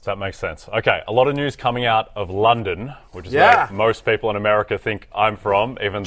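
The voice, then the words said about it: Australian English accent. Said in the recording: “I'm Australian. I talk Australian. ... You have an accent. ... I do have an accent.”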